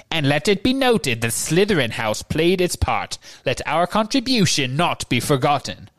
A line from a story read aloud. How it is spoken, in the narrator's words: Phineas Nigellus called in his high, reedy voice